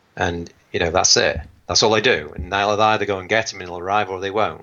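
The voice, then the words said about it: English accent. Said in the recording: “having an English accent”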